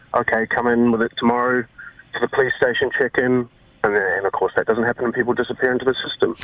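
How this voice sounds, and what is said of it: New Zealand accent. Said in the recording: “I love the Kiwi accent. I love the Kiwi accent. It's much better than the Australian accent.”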